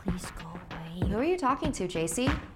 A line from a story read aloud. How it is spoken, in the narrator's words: I would catch him muttering to himself